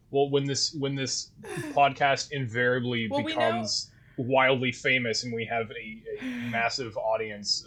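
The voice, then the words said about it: Canadian accent. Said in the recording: “everyone has to make fun of your Canadian accent ... She hears it when I say out and about and sorry and things ... make fun of me for my Letterkenny accent”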